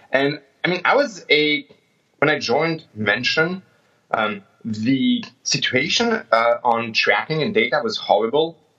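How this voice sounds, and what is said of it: French accent in English. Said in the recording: “definitely not American accent, I'm definitely French”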